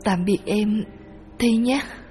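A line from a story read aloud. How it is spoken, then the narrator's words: Soft farewell. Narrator (Vietnamese): tôi hướng về mộ Thi khẽ nói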